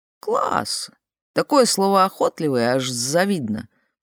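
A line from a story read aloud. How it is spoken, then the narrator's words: Grumbling. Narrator (Russian): проворчал Лео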